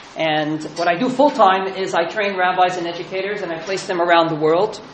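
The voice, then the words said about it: Accent not from his current country. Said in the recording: “As you can hear from my accent, I didn't originate there.”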